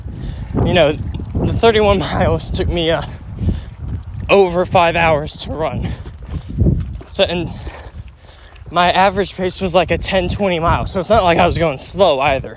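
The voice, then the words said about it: Out of breath while running. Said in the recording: “I'm getting out of breath more easily”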